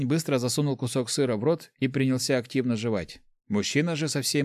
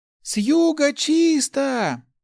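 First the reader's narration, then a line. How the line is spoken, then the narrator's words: Shouting women. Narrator (Russian): закричали женщины, собравшиеся в центре села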